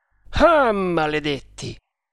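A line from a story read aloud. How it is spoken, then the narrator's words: Muffled exclamation. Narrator (Italian): esclamò con voce sorda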